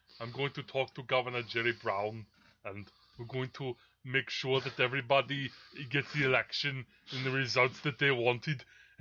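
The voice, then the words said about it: Deep relaxed German-sounding impression. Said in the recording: “The Schwarzenegger, you have to kind of go deep into the voice. You got to, like, relax it. ... he has that kind of accent ... Now I'm making him sound like just a generic German guy.”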